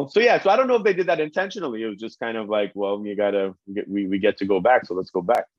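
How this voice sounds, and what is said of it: Strong Trinidadian Caribbean accent. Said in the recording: “the Caribbean accent is so nice and strong ... When the Trini come out”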